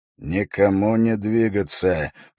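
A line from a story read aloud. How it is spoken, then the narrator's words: Quiet command. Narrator (Russian): приказал Эрок тихо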